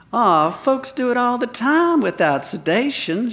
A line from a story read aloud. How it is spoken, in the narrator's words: purred and smiled